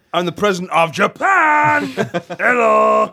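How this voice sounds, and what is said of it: Put-on Japanese accent. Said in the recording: “That is an uncanny Japanese accent, it really is.”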